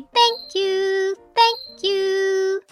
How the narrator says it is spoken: Fugle chirped

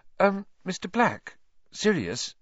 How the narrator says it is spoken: said Hermione timidly

